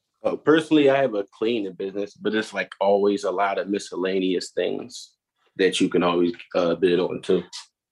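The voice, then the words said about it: Philadelphia accent. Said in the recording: “I could tell by the accent, man. ... Everybody in Philly speaks the same.”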